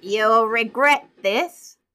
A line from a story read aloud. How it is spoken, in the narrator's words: he shouted